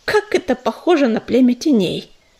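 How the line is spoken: Contemptuous snort. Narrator (Russian): презрительно фыркнула белка

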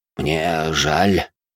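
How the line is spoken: Confused mutter. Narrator (Russian): растерянно пробормотал Нокс

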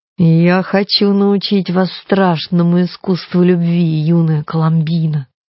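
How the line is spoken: Cooing seducer. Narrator (Russian): проворковал козлоногий обольститель

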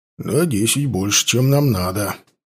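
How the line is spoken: Grumbling. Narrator (Russian): проворчал Борис

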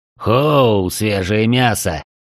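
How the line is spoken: Growl. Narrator (Russian): прорычал Джерхан

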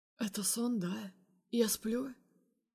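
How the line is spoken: Sleep-hoarse question. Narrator (Russian): Охрипшим ото сна голосом спрашивает он

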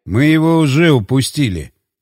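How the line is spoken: Muttering. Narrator (Russian): пробурчал я

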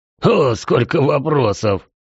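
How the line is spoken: Hoarse laughter. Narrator (Russian): снова хриплый смех

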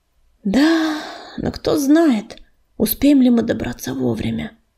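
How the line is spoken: Sighing. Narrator (Russian): вздохнул он

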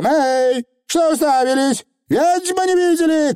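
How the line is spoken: Shouting. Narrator (Russian): крикнула она

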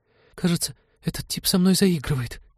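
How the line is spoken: Trembling complaint. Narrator (Russian): дрожащим голосом пожаловалась Полина Теду

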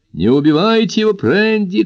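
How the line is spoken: Shouting. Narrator (Russian): кричал Моро

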